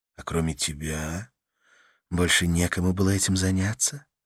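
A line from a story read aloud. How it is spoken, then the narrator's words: Soft gentle question. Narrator (Russian): мягко спросила Карла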